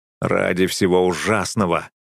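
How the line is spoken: Grumbling. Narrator (Russian): проворчал я

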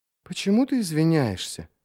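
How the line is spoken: Uncertain addition. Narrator (Russian): неуверенно добавила

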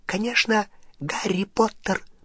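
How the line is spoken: Whisper. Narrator (Russian): прошептал Добби

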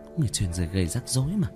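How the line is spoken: Muttered. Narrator (Vietnamese): Cố Văn lẩm bẩm

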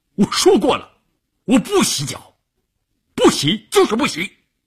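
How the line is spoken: Angry shout. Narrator (Chinese): 关山林瞪着眼睛冲乌云大喊

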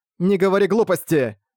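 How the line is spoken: Forceful shout, girl. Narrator (Russian): сильным тоном крикнула девушка

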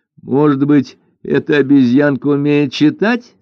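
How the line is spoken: Laughing remark. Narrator (Russian): смеясь, заметила Лань Инь

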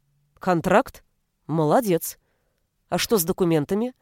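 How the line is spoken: Dry. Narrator (Russian): произнесла Ребекка сухо

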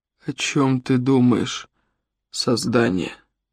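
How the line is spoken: Hoarse voice. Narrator (Russian): Его голос стал хриплым

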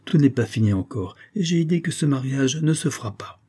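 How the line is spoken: Exclaimed. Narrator (French): s'écria Céline

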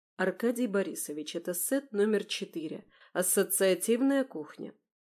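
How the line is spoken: Cold reply. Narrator (Russian): холодно ответила

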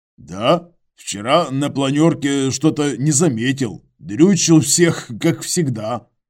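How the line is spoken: Snorting chuckle. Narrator (Russian): хмыкнул Иваныч

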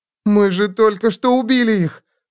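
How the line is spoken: Moan. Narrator (Russian): простонала она

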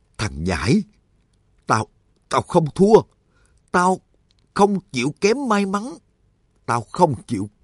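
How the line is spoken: Trembling, defiant. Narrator (Vietnamese): Y vừa run rẩy vừa nói

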